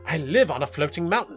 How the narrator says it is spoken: the goat sneered

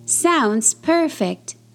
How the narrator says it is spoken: says Lambie

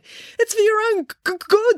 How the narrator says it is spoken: stammered Joe

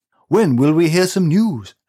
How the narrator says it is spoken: asked Steve angrily

